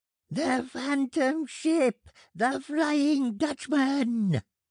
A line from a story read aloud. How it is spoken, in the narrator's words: shrieked Shrifton